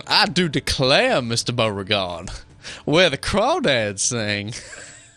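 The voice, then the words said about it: Old-time Virginia planter accent. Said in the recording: “some 17th, 18th century, you know, Virginia planter accent.”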